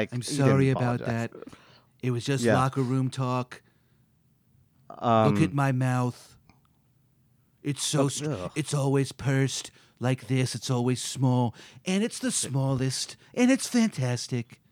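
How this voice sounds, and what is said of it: A pretty good impression. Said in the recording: “my impression? ... It's pretty good. It's pretty good.”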